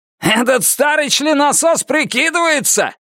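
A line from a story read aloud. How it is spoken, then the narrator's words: Shouting. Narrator (Russian): крикнул Карсон Стратерс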